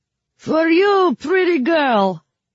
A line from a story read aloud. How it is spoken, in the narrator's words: the man shouted